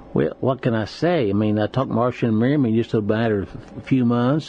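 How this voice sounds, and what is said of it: Fast-talking Southern accent. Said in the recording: “That accent sometimes gets a little contagious here... Southern accents, as long as it's slow, but you do have a tendency to talk pretty fast.”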